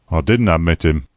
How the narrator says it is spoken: grumbled the old man

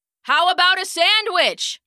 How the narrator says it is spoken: Charlie shouted, but it was lost in the noise of the train

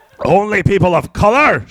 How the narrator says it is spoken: shouted the beast as he cackled maniacally

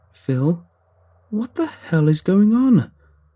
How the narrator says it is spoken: I wailed

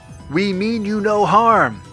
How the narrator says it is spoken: shouted the aliens in return

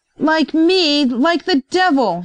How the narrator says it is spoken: shouted Jenks

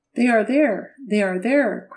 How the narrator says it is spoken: cried Frank

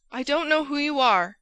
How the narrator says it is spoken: he cried

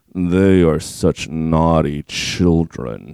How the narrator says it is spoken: she purred

